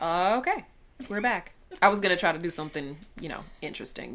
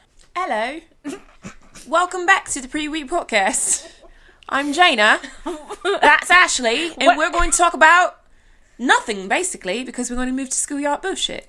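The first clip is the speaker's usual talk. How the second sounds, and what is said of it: Put-on cockney British accent. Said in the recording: “a weird British accent ... What is this, Sweeney Todd? ... I have to go cockney”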